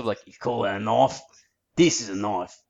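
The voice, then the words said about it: Put-on Ocker Australian accent. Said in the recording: “I think you need more of the Ocker accent in there ... it's that kind of accent that really sells that joke ... trying to attempt an Australian accent”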